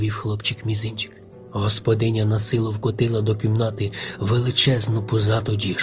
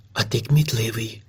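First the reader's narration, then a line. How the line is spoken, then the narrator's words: Whispered. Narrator (Ukrainian): шепнула вона хлопчикові мізинчику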